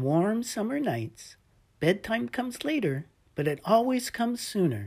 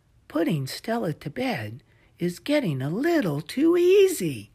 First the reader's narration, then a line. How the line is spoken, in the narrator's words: sighed, thinking to himself